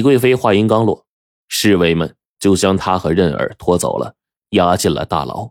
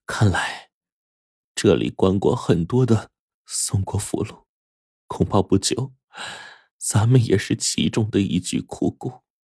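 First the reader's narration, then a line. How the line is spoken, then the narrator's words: Sighing. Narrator (Chinese): 李贵妃叹了口气说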